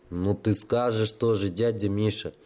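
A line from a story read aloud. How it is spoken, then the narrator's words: Scoffing snort. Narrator (Russian): фыркнул Бульба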